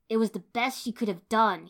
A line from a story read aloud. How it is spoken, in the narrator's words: he snarled